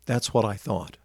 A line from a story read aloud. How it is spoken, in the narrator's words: said quietly